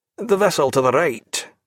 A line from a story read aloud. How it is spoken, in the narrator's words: said Graham somewhat testily